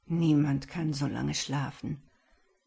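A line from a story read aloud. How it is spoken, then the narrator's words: Absent-minded murmur. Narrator (German): murmelte Marek abwesend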